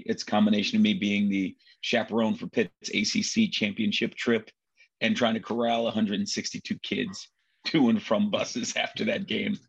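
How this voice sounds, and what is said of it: Nasal, gravelly voice. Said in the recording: “my voice is a little nasally / gravelly”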